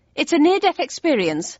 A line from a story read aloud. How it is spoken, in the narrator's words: told hastily